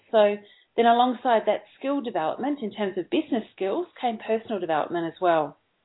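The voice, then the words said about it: Australian accent. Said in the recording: “You mentioned that I'm in Australia, and everyone can probably hear that from my voice”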